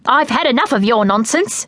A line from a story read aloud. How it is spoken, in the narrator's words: said crossly